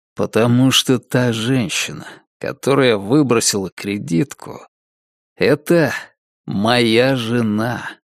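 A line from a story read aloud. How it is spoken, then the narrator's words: Plain. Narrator (Russian): сказал Дэниелс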